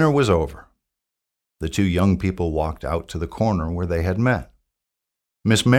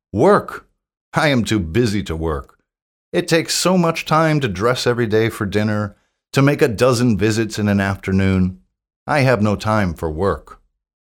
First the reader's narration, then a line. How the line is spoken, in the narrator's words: exclaimed